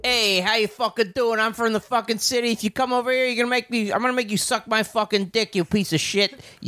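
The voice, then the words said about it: Put-on Italian city accent. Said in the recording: “Where'd your Italian accent go? ... I'm an actor from the city. I can do any Italian accent.”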